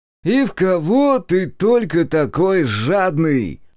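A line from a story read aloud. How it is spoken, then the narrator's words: Shout from hallway. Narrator (Russian): выкрикнул из прихожей Колян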